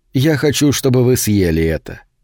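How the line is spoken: Plain. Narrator (Russian): сказал Вулкан

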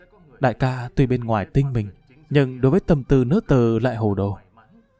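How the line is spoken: Soft lament. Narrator (Vietnamese): Xào xào khẽ than thở

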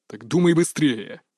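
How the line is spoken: Boss's snarl. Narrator (Russian): рыкнул босс

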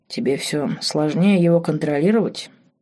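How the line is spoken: Quiet question. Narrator (Russian): тихо спросил король

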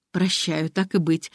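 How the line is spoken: Warm, smiling. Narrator (Russian): ласково улыбнулась Ариадна

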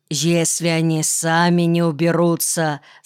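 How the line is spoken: Plain. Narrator (Russian): сказал Мэкэм

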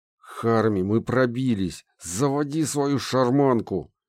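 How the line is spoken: Through clenched teeth. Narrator (Russian): Процедил я сквозь стиснутые зубы

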